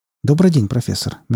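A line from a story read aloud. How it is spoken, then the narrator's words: Soft. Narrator (Russian): мягко произнес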